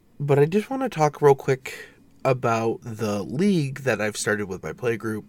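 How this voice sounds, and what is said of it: Congested, stuffy voice. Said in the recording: “apologize for my voice. My sinuses are having a field day right now.”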